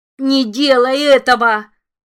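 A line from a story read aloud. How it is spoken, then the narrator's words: Howled. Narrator (Russian): взвыл голос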